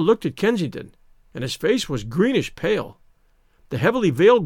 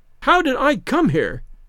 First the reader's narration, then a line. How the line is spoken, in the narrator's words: she shrieked